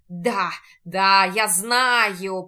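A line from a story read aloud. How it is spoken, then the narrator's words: Hellish laughter. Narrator (Russian): продолжает негр с адским хохотом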